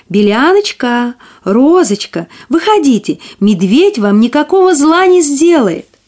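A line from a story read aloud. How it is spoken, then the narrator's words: Calling out. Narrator (Russian): крикнула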